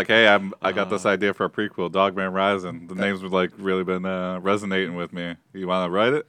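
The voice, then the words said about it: Imitates another person's voice, poorly. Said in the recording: “a terrible impression”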